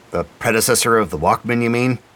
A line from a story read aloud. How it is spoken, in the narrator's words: McBride grunted, clearly not impressed with their find